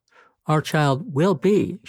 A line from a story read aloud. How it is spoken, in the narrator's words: she said, her voice firm, as if speaking the words made them true